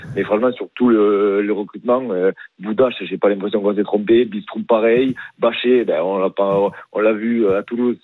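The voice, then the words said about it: Southern French accent. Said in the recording (French): “t'as pas vraiment un accent du Rhône, hein ... j'ai l'accent du Sud”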